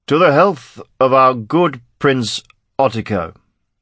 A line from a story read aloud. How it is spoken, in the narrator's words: slurred